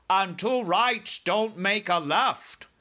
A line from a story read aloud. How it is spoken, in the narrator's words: cried the BFG